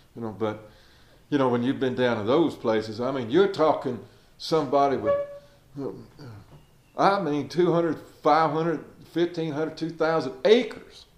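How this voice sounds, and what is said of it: American Southern accent. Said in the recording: “If you've ever been down in southern Georgia and Alabama, Louisiana, Mississippi, places like that, that's where this accent comes from.”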